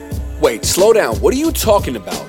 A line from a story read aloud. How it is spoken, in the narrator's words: I said